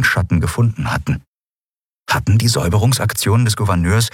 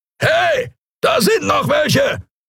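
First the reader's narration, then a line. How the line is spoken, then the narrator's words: Creature roaring. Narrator (German): brüllte eine Skria-Stimme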